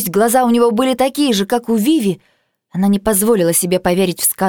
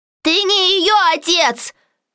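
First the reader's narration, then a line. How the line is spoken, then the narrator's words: Shout. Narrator (Russian): крикнула Джуд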